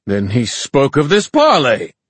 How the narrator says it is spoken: Horace roared

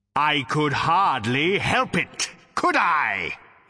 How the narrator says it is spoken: he bellowed

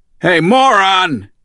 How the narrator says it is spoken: He shouted at the driver

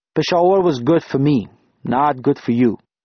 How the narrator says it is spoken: he said

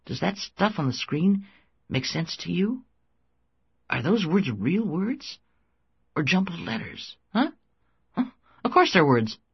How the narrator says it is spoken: Frank said anxiously

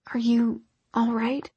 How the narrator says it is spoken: His voice came out in a whisper, smooth

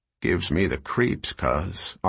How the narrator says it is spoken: Arlo murmured

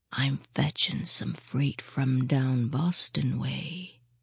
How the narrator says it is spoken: he said, almost in a whisper

